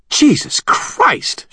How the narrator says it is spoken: swore in a vicious tone as we ran

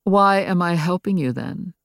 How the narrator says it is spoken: He asked equally dryly

